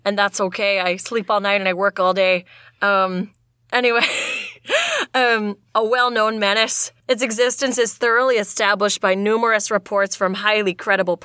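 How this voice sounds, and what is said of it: Deep low north midwestern lumberjack voice. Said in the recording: “Just do like your north midwestern voice. You're up there in the Wisconsin ... I'm gonna drop my voice way down low because I'm all like, ... because you're a lumberjack.”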